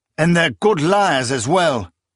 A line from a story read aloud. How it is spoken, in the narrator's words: Proyas exclaimed